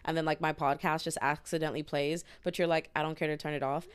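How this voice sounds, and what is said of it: Very fast, chipmunk-like speech. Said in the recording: “you sounded like a chipmunk. ... she's talking fast as fuck”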